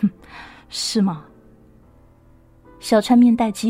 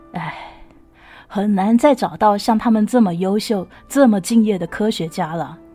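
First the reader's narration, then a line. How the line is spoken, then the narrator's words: Sighing. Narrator (Chinese): 老曹叹了口气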